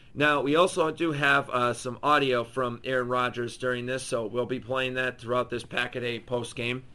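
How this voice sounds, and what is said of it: Hoarse, nearly lost voice. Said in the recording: “My voice is gone, guys. I'm sorry. My voice is absolutely history.”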